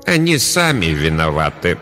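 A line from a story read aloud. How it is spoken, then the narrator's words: Gloomy female answer. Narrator (Russian): мрачно ответила настоятельница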